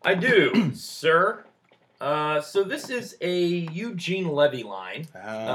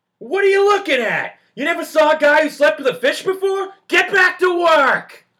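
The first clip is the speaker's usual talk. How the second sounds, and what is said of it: Imitates another person's voice, good inflection. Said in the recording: “give us that good old John Candy ... he got that accent ... Good inflection”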